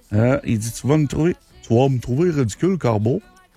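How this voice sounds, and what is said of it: Imitates another person's accent. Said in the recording (French): “Faudrait que je prendrais son accent... c'est un peu comme ça qu'il parle, Robin”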